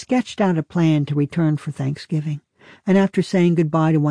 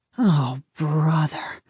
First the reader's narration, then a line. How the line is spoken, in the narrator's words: moaned